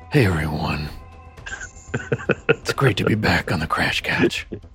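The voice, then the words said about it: Exaggerated really deep voice. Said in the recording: “your voice that you were doing before we were recording ... It was the really deep, like, hey. I'm back coming to the Crash Couch voice.”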